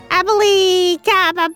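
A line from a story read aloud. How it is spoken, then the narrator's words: Shouted incantation. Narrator (Chinese): 魔法师琪琪喊了一下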